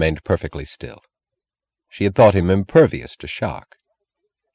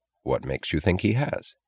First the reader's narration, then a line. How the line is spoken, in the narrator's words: he asked evenly